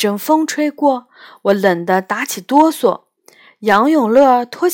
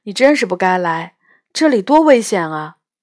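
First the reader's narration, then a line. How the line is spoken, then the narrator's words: Sighing. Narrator (Chinese): 杨永乐叹了口气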